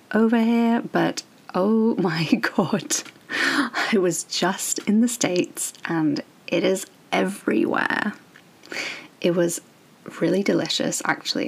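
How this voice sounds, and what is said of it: Crackly, strange-sounding voice. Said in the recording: “my voice sounds so crackly and strange, I'm recovering from a little seasonal cold”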